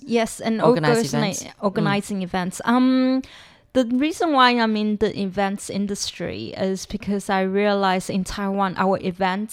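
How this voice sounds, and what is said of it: Slight British accent. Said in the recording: “a little bit of British accent”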